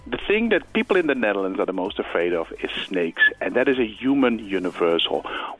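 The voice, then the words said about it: Dutch accent. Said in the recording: “You can hear my accent. I am a Dutch person”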